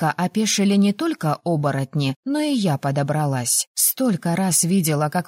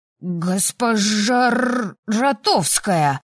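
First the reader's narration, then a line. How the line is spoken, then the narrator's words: Growl. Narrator (Russian): рыкнул Асакура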